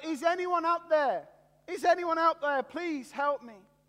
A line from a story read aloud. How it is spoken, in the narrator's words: out of desperation and in his fear, he just shouted out